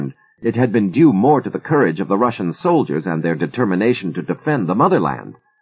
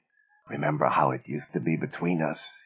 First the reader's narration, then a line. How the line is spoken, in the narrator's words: he whispered hoarsely